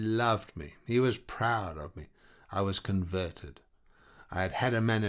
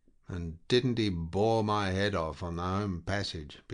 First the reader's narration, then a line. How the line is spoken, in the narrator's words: began Bunter again in a weary voice